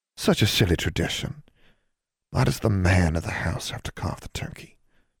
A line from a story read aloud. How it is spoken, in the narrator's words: Julia murmured